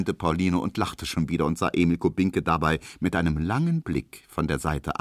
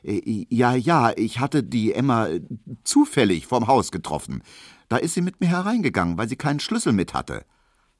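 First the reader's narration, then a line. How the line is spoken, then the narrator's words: Hesitant. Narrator (German): sagte Emil Kubinke zögernd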